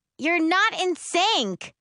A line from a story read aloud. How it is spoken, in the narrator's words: London shrieks